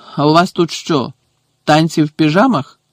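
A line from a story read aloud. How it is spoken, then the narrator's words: Growled. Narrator (Ukrainian): прогарчав він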